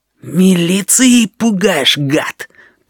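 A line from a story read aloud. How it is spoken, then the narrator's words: Hissing. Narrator (Russian): прошипел гусыня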